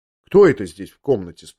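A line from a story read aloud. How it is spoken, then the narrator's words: Plain. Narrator (Russian): спросила она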